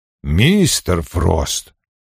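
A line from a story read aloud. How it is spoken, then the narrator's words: Sharp interruption. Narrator (Russian): резко остановил его Вульф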